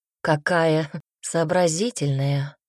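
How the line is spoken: Soft smiling speech. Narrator (Russian): мягко улыбнулся Салар

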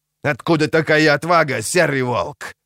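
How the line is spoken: Growl. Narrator (Russian): прорычал он

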